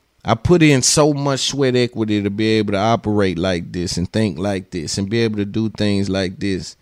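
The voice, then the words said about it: Tennessee Southern twang. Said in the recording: “my slang and my twang that I got because I'm from KSV, I'm from Tennessee”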